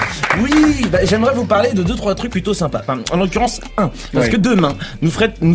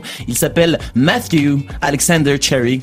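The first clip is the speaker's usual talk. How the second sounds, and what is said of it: Put-on English accent on a name. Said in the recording (French): “Petit big up pour mon accent, s'il vous plaît. J'ai travaillé pendant 10 jours dessus.”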